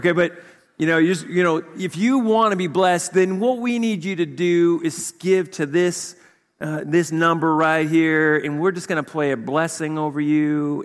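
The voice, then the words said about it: Put-on Southern accent. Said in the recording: “I always do the Southern accent”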